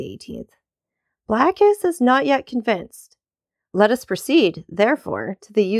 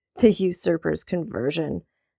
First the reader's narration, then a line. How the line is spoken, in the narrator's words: murmured the Duke